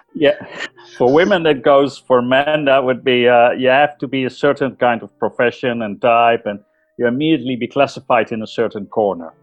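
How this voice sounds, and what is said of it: Dutch accent in English. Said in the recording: “I'm sure that my audience hear your accent ... I'm Dutch. So I was born and raised Dutch.”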